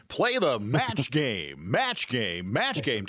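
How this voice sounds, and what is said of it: Game show host voice. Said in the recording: “I got to put my game show voice in action here”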